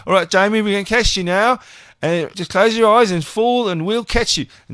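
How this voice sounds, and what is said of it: Put-on Australian accent. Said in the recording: “said in an Australian accent”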